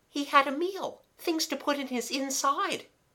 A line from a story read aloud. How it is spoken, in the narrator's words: said Kathleen, still giggling